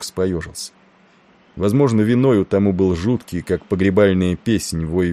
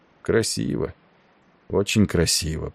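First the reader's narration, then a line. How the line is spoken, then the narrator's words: Muttered. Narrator (Russian): пробормотал он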